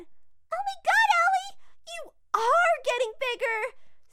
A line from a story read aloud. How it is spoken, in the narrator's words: squealed Mary